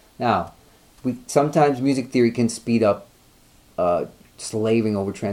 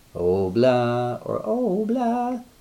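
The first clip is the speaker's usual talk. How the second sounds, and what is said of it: Sings in a falsetto voice. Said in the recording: “Excuse my falsetto voice.”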